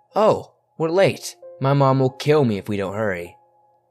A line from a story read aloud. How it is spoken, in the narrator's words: said loudly